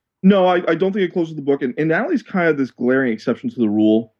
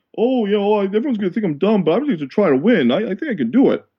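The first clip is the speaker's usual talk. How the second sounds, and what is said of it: Imitates another person's voice. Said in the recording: “That was the worst Fabio impersonation of all time”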